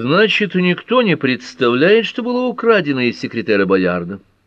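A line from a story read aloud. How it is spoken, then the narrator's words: Brisk, cheerful voice. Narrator (Russian): бодрым голосом резюмировал Эллири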